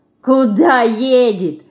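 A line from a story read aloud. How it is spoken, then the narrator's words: Loud laughter. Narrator (Russian): захохотал Вася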